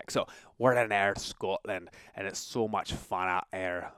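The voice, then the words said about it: Bad put-on Scottish accent. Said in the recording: “that's such a bad accent... I'm going to try it anyway, just for fun... I have a little bit of license to try the bad accent... Oh, it's so terrible.”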